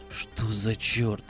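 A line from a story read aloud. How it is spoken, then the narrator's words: Stunned mutter. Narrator (Russian): пробормотал пораженный охранник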